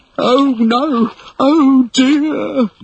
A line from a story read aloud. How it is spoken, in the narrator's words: moaned Smee